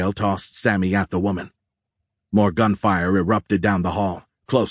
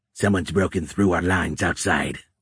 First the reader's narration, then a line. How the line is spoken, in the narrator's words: one of the Scions said, his voice crackling